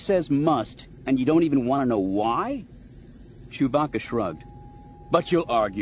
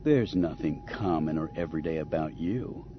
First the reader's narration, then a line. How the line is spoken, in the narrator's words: Han replied in a tone so cloying that it made Chewbacca groan